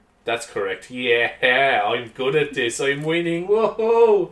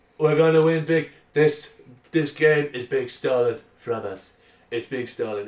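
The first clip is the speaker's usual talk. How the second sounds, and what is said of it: Imitates another person's voice. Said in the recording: “I'm going to take the Donald Trump stance ... my Donald Trump impression getting better?”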